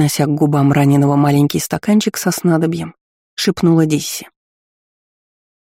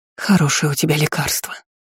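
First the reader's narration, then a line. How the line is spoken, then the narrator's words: Whisper. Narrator (Russian): прошептала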